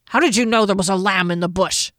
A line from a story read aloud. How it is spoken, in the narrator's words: Janet growled